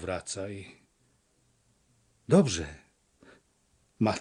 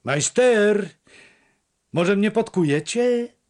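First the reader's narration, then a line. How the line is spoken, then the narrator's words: Called out. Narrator (Polish): zawołał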